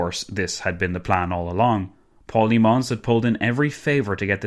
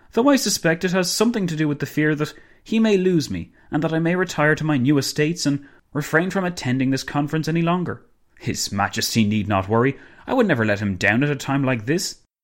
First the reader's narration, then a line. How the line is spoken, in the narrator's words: Dinglebrush exclaimed